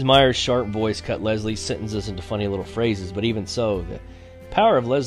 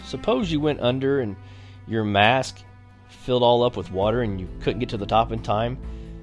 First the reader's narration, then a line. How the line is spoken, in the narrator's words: He was choking and sweating